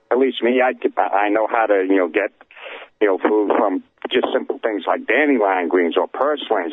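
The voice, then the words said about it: Strong, hard-to-understand accent. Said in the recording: “I love your accent... I can't understand either one of you.”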